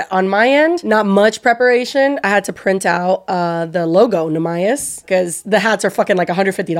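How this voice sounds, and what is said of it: Hoarse, worn-out sick voice. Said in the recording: “I've been sick for so long, and like my voice is shot, and it was worse this morning... You sounded a little toad.”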